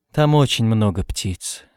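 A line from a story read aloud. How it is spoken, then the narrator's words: Calm. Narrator (Russian): сказал спокойно Камил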